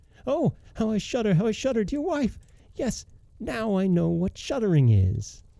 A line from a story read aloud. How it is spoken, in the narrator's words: he awoke and cried out